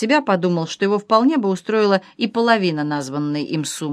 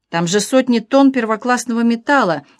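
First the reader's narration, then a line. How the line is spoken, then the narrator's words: Grandiose exclamation. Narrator (Russian): с не меньшим пафосом воскликнул господин Хаджибек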